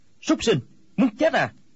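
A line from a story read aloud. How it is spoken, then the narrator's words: Shouting. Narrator (Vietnamese): Quách Tĩnh quát lên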